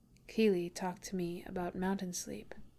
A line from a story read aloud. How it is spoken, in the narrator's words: Bilbo says quietly